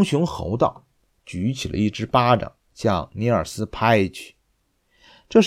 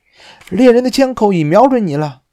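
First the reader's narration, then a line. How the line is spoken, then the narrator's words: Shrieking. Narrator (Chinese): 尼尔斯尖叫起来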